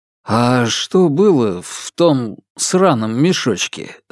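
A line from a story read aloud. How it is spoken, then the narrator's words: Plain question. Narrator (Russian): спросил я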